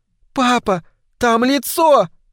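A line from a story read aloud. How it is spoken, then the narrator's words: Surprised cry, then screaming. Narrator (Russian): От удивления она вскрикнула, она закричала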